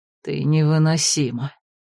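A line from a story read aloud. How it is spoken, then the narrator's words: Barely audible. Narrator (Russian): еле слышно ответил Ролан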